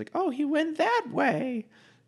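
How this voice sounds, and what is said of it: Old lady voice impersonation. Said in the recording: “redisguises himself as an old lady ... good impersonation.”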